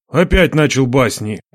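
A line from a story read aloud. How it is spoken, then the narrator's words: Grumbling. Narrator (Russian): проворчал Одинец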